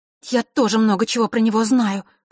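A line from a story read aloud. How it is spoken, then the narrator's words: Said through clenched teeth. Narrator (Russian): процедила Василиса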